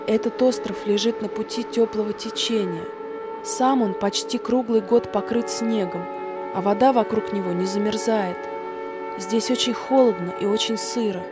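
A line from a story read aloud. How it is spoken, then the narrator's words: Girl speaking quietly, to nobody. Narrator (Russian): Девушка тихо произнесла, ни к кому не обращаясь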